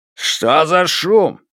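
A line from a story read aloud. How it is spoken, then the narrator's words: Guard shouting. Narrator (Russian): крикнул охранник Хуан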